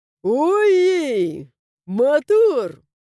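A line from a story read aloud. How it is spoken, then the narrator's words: Chuckled. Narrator (Russian): хохотнул мой верный друг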